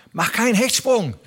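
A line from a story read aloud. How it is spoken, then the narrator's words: Calling out. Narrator (German): rief er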